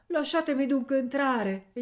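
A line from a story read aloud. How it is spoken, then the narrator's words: Pleading. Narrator (Italian): gli supplicò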